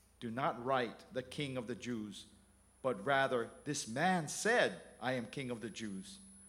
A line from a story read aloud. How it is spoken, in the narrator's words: Pilate said